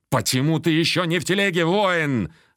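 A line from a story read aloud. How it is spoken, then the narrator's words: Barked order. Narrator (Russian): рявкнул тысячник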